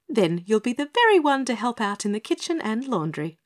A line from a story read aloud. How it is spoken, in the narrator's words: proposed Pinny Penny brightly